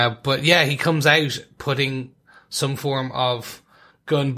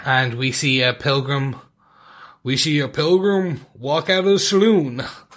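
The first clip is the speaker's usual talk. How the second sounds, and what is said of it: Poor Western-movie style voice. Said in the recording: “my worst Western impression”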